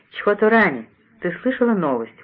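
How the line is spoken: Exclamation. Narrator (Russian): воскликнула

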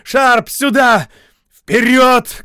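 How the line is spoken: Shouted. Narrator (Russian): крикнул Шарп

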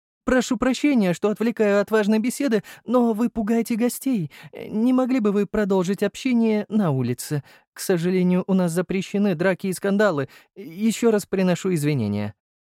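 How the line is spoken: Young man's trembling voice. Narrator (Russian): сказал молодой человек дрожащим голосом

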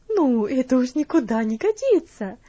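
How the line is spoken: Exclaimed. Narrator (Russian): воскликнула мисс Стивенс

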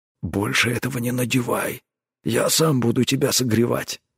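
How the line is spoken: Grumbled. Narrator (Russian): буркнул он

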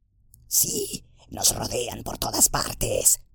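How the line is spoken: Murmured. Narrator (Spanish): murmuró

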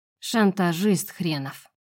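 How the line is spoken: Father's tired sigh. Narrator (Russian): устало вздыхает его отец

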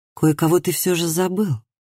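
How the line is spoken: Soft, gentle. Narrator (Russian): мягко сказал Лив

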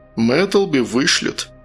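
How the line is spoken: Heavy sigh. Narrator (Russian): Матик тяжело вздохнул

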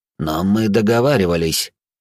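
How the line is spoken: Repeated through gritted teeth. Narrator (Russian): сквозь зубы еще раз повторил сидящий за столом

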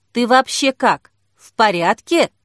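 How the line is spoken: Plain. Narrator (Russian): спросила Кира

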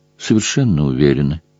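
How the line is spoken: Smiling. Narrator (Russian): улыбнулась ей Тесса

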